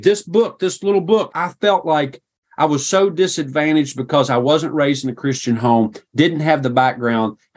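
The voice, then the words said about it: Appalachian rural American accent. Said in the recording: “I have this accent. And I think it was probably worse then than it is now ... my accent may make you think of the Hatfields and the McCoys”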